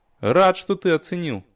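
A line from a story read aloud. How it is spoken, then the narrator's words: Dry. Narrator (Russian): сухо откликнулся я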